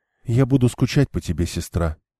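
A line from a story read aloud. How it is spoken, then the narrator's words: Whisper. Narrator (Russian): прошептала она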